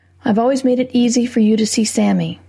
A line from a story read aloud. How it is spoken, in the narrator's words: I said evenly